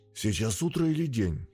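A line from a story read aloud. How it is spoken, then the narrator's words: Hoarse voice. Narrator (Russian): Голос звучал хрипло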